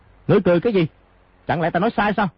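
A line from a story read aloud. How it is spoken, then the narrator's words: Old man, angry. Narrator (Vietnamese): lão lục tức giận nói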